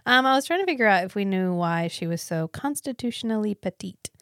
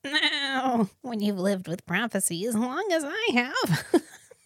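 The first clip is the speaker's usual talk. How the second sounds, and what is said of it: Zelda Rubinstein impression. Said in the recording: “That's my best Zelda impression.”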